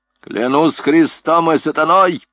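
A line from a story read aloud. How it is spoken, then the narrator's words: Captain shouting. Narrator (Russian): крикнул капитан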